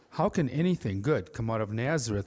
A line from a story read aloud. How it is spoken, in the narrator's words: I said